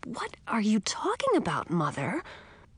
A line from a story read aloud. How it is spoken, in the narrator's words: I asked, trying to keep my voice down as well